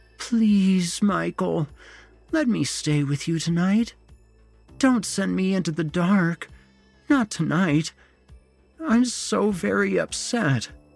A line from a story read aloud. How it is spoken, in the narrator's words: moaned